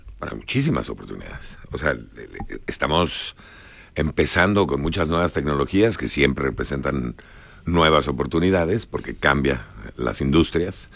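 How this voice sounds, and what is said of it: Mexican Spanish accent. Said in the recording (Spanish): “vienes de México, ya se nota perfectamente por tu acento”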